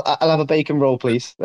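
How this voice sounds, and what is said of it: Weak fake British accent, sounds American. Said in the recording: “give me something to say in like a fake British accent ... That sounded so like American, it was unbelievable ... You sounded extra American”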